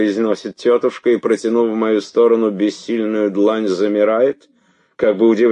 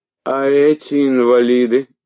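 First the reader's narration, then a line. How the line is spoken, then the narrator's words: Tired. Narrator (Russian): говорит она устало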